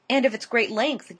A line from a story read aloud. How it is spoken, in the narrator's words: gasped Mrs